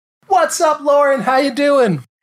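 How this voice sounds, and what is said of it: High-pitched enthusiastic greeting. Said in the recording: “how high-pitched my voice gets when I say hello to you ... it means that you are enthusiastic”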